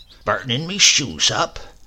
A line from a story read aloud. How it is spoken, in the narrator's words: muttered